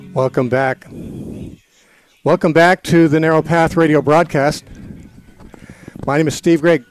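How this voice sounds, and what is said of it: Out of breath, panting. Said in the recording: “I'm out of breath right now because I just ran upstairs ... I'm panting.”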